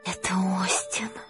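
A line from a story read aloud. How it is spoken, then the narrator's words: Reverent whisper. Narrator (Russian): благоговейно прошептала Юта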